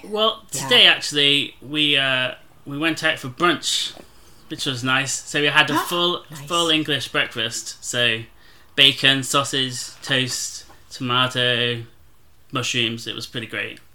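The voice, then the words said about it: British London accent. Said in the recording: “he sounds so cool ... I could listen to any version of accent from London or anywhere”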